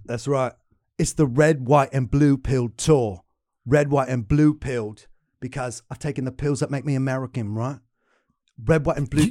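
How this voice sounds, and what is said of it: Put-on British accent. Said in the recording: “But you have a British accent.”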